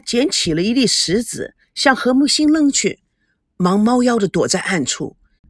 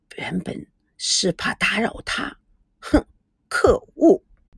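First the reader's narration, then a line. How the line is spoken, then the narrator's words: Muttering. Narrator (Chinese): 不觉喃喃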